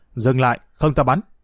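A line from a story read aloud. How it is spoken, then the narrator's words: Shout. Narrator (Vietnamese): hắn liền quát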